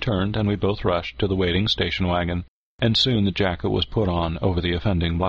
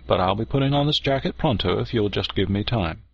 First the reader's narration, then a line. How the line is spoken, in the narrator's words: replied cheerfully